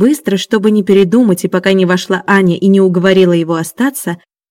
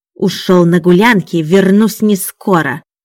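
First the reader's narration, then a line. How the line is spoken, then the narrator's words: Hissing. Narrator (Russian): шипел он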